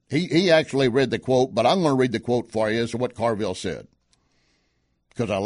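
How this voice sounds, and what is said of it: Usual voice. Nothing is said of it.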